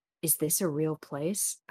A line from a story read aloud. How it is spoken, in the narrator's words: whispered